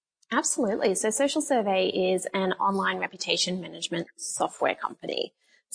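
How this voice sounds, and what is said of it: Australian accent. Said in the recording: “You have a British accent. ... But that's actually Australian.”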